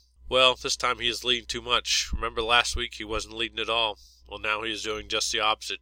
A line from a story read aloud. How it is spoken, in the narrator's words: Gonzalez said with a sigh